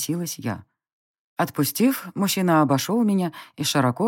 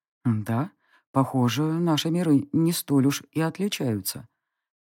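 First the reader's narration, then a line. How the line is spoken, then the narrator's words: Quiet werewolf murmur in ear. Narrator (Russian): тихо заметил мне на ухо оборотень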